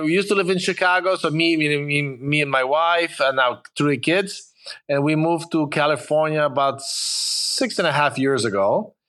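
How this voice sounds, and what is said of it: Polish-accented English. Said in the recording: “as you can hear from my accent... I'm originally from Poland, from Warsaw... I came when I was a little bit over 20 years old, so that's why I couldn't lose my accent”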